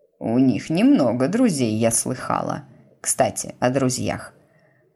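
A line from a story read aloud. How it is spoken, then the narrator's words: Falsely casual tone. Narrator (Russian): продолжила она фальшиво-небрежным тоном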